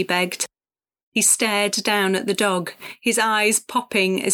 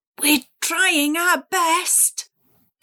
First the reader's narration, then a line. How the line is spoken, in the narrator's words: Cassie said through gritted teeth